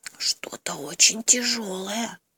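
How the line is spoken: Bear cub whispering. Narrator (Russian): шепнул медвежонок

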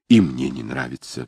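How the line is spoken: Sighing. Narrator (Russian): вздохнула Недда

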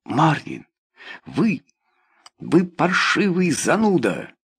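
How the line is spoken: Exasperated exclamation. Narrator (Russian): Даже терпеливый Вальдец в конце концов воскликнул

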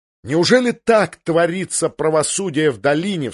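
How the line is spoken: Loud exclamation. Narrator (Russian): вскричал Тирион так громко

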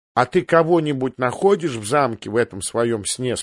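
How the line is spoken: Plain question. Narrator (Russian): спросил Сэм

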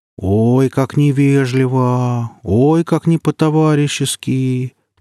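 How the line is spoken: Ironic drawl. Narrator (Russian): протянул Гриф с иронией

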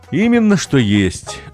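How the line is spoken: Sighing. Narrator (Russian): вздохнул артист Сторис

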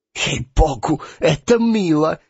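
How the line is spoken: Whisper. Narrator (Russian): зашептал фон Пах

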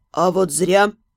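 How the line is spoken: Grumbling. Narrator (Russian): проворчал Албрит

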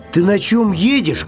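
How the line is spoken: Bear cub shouting. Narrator (Russian): крикнул медвежонок

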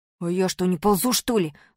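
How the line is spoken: Snapped. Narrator (Russian): огрызнулся Малинин

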